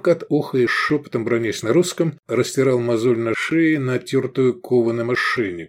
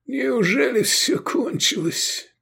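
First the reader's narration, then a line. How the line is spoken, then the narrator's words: Moaning. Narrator (Russian): простонал он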